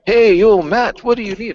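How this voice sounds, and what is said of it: Imitates a character's bad accent. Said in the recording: “Had a really bad accent.”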